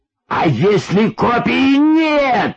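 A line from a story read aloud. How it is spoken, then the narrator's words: Old man yelling persistently. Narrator (Russian): вопил, не унимаясь, старик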